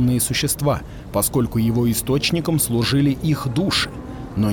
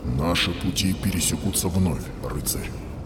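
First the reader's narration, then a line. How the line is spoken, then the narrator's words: Whisper. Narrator (Russian): прошептал Зодчий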